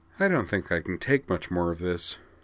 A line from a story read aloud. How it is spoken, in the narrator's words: Utina sighed and said